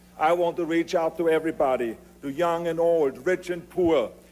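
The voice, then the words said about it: Noticeable foreign accent in English. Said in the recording (Dutch): “dat accent blijf je ook horen”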